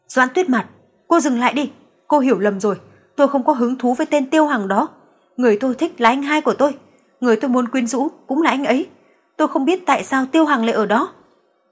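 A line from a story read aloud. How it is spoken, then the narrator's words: Terrified scream. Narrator (Vietnamese): kinh hãi hét lên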